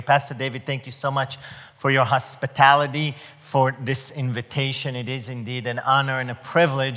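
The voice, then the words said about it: Israeli-accented English. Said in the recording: “did you notice we're not from the South? Did you notice my accent is not from Mississippi? Well, I was born and raised in Israel.”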